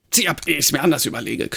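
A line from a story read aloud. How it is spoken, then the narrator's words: Growled. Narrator (German): knurrte er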